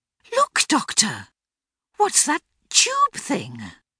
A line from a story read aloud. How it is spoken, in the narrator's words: with a gasp of horror